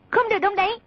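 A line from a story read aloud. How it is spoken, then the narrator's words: Sharp shout. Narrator (Vietnamese): quát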